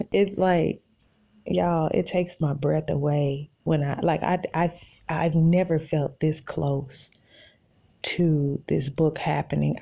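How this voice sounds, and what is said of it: Out of breath, breathless speech. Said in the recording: “I'm out of breath”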